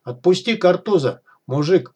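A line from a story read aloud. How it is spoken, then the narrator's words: Exclaiming bearded bandit. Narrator (Russian): воскликнул второй, бородатый и отдаленно похожий на араба бандит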